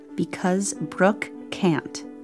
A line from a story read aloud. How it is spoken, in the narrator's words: my mother answered